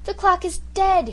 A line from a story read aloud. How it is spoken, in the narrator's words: he gasped